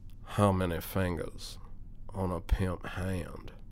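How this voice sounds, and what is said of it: Put-on pimp character voice. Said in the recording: “the next character I'm going to do is the pimp ... I'm going to do a voice that some people may consider ethnic”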